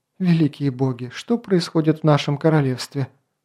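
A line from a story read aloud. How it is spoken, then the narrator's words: Sighing. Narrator (Russian): Вздохнула Лития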